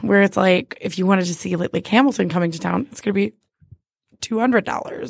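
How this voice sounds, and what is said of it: Hoarse, strained voice. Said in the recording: “I lost my voice again”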